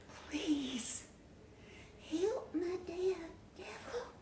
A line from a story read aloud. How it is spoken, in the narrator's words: whispered into the dirt